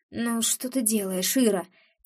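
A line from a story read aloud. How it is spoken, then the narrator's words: Soft moan. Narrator (Russian): тихонько выстанывает он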